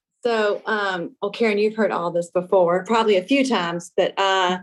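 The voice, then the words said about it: Southern Louisiana Cajun accent. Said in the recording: “obviously by my accent, I'm not a, a, native Northwesterner ... born and raised in Lafayette, Louisiana, a small Cajun town”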